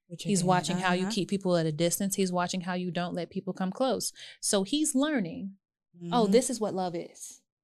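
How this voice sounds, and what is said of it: Soft, calm voice. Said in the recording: “in that soft voice ... calm tone”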